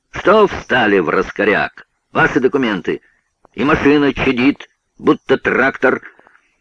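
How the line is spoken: Shouting. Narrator (Russian): Тот закричал

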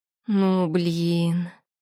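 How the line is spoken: Annoyed groan. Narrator (Russian): раздосадованно простонала я

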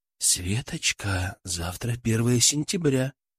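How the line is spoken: Whisper in ear. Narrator (Russian): склонившись к самому уху, прошептал

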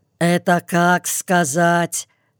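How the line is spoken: Deaf man grumbling. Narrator (Russian): никому не обращаясь, проворчал глухой

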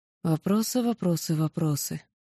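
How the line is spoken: Sad summing up. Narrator (Russian): подытожила печально

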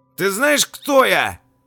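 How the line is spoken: Loud shout. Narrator (Russian): громко прокричал

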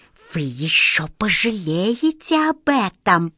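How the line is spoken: Hissed. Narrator (Russian): прошипел

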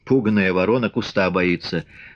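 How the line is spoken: Laughing. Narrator (Russian): смеясь сказал Артемьев

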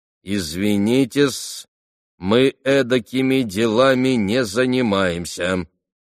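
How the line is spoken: Decisive, bleak tone. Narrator (Russian): Кузьма Кузьмич изрек, наконец, самым решительным и безотрадным тоном

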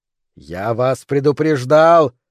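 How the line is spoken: Yelling. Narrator (Russian): заорал Феникс

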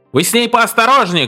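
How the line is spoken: Shouting after someone. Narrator (Russian): крикнул он вслед Модели

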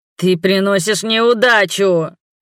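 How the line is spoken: Wheezing, breathless wail. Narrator (Russian): Вновь взвыл Ихот, надсадно сипя, пытаясь отдышаться, и пожаловался

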